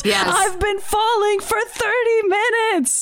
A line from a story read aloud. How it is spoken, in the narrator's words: he yells